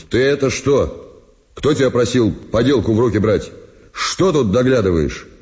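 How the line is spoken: Stern question. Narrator (Russian): Спросил строго, как по его правилу велось

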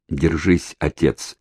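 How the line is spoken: Quiet. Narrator (Russian): тихо проговорил он

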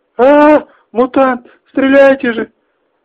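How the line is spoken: Shrill scream. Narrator (Russian): Пронзительно закричала Мара

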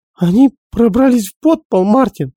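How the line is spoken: Shrieking. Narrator (Russian): завизжала Энн

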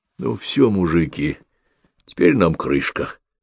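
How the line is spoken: Hoarse, frightened forced words. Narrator (Russian): хрипло выдавил побледневший, как мел, Филиппыч

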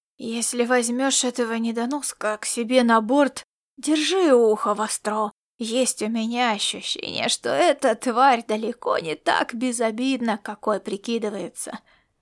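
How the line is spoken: Hissing whispered warning. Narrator (Russian): предупредил он свистящим шепотом

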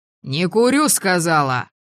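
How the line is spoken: Deep barking voice. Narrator (Russian): Басовито рявкнула

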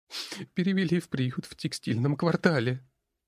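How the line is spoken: Sobbing. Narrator (Russian): всхлипнула Кара, сестра Гори

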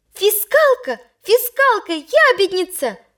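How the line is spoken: Furious shouting. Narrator (Russian): кричал, выходя из себя, Толя

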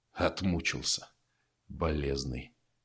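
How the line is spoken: Hoarse curt remark. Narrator (Russian): хрипло бросил сталкер

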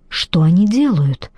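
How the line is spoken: Whisper. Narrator (Russian): прошептал Зейн

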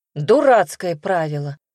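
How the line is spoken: Exclamation. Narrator (Russian): воскликнула

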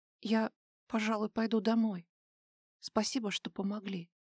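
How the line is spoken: Timid reply. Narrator (Russian): робко ответил Даил

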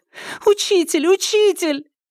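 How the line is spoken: Loud tearful cry. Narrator (Russian): Лэй Жун громко кричала сквозь слезы

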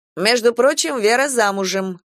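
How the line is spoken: Smirking snort. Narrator (Russian): хмыкнул ООО

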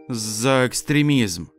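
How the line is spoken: Sad. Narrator (Russian): грустно ответил Дед Мороз

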